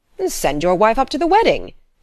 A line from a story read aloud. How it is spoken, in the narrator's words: exclaimed the doctor, foreseeing a happy solution